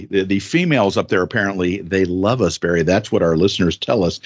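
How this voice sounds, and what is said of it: Put-on sexy voice. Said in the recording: “sexy voice”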